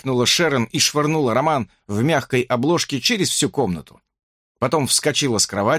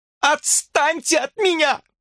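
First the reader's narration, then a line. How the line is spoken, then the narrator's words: Screaming woman. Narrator (Russian): завопила она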